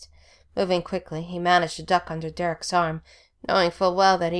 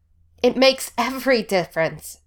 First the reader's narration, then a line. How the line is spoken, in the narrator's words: Derek yelled